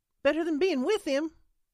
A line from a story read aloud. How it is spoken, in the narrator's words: Holly snapped